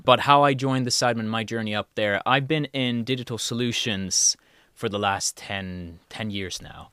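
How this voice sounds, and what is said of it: Slight Swedish accent. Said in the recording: “The accent that will slip now and then during this podcast comes from Sweden. ... you'll hear me say jogging or jumper or something where the J's fall into an abyss of linguistic problems”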